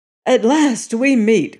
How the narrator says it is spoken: cried Tom Peters, while his face lit up in joy

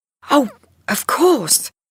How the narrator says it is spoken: cried Linda

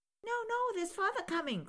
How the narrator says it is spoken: cried the 2 young Cratchits

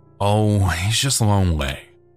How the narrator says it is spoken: she said with a sigh

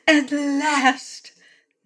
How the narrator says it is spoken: Nada cried

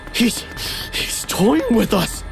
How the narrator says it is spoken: I panted

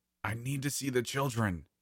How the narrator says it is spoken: she snapped

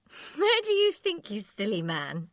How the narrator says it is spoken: she said with a laugh

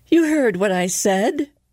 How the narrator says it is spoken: cried Elizabeth

